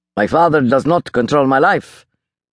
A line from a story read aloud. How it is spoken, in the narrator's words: Baltic snapped, his breath ragged now